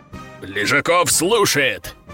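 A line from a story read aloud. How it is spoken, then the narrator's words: Barked loud shout. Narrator (Russian): гаркнул генерал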